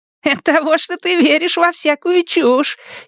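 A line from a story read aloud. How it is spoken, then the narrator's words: Giggling. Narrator (Russian): хихикает Табаки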